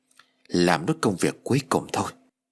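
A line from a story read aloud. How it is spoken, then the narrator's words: Muttering. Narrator (Vietnamese): Lâm lẩm bẩm nói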